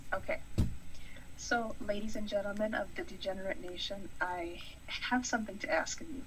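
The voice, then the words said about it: Sweet, pretty-sounding voice. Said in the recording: “in your prettiest voice”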